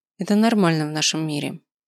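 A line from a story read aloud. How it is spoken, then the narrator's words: Dry reply. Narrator (Russian): сухо ответил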